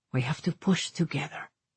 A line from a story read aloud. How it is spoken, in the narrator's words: he whispered